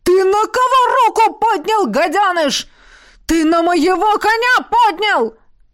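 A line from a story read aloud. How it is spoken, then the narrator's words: Frantic howl. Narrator (Russian): Кто-то истошно взвыл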